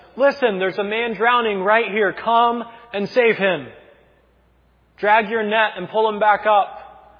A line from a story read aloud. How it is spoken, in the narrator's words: he yells out to them and he says